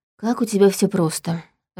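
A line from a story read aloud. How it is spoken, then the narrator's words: Sighing. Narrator (Russian): вздохнула я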